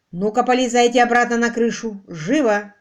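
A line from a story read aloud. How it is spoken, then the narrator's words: Barked. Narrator (Russian): рявкнул Квиллер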